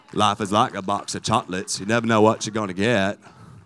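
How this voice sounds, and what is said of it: Forrest Gump impression, Southern drawl. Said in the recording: “I can do the Forrest Gump accent really, really well.”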